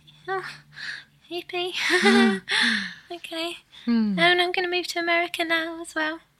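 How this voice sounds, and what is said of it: Australian accent. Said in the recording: “With your Australian accent.”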